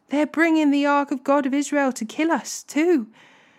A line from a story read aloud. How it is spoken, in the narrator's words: the people of Ekron cried out